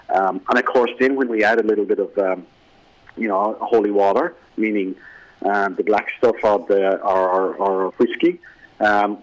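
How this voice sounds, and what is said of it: Irish accent with a lilt. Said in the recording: “I just think there's a little bit of a lilt um, to our accent... counties in Ireland”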